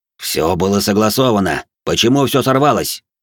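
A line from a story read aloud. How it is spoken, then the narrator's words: Growl. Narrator (Russian): прорычал глава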